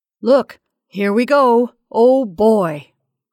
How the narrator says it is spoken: cried Harry

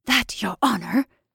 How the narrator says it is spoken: answered me in a hurried whisper

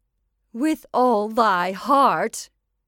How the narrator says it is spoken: cried the old witch, laughing loudly

